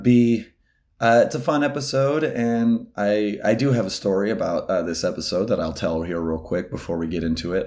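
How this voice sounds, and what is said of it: Hoarse, failing voice. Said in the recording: “I'm losing my voice, I think, as you may have heard... Oh my god, I cannot speak.”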